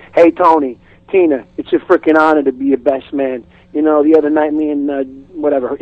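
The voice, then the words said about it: Put-on tough-guy accent. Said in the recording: “easy accent”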